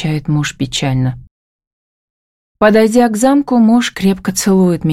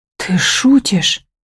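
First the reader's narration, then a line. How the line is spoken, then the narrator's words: Frightened breathy words. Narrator (Russian): выдыхаю испуганно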